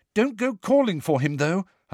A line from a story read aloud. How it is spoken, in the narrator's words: Hermione said urgently